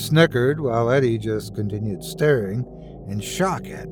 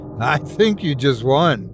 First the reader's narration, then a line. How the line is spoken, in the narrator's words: Larry exclaimed